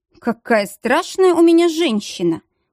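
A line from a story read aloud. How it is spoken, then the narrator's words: Amused grunt. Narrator (Russian): хмыкнул Дияр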